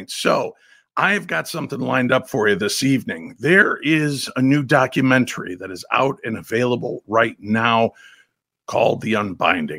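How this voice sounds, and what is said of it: Weak, strained sick voice. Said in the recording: “I am still under the weather, and as you can hear by my voice, struggling to even have a speaking voice at this point.”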